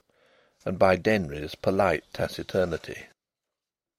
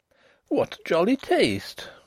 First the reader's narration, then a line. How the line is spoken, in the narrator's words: she exclaimed